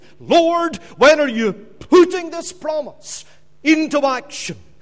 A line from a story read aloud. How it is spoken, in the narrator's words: after many years of waiting, after many years of holding on to the promise of God and pleading with him